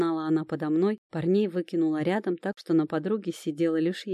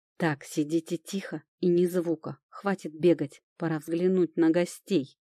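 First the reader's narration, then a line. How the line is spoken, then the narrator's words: Growling. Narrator (Russian): Прорычал Тирон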